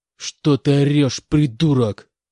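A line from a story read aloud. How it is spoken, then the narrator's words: Growling. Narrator (Russian): прорычал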